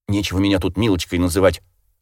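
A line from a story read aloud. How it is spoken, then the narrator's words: Snapping retort. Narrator (Russian): огрызнулась Зиночка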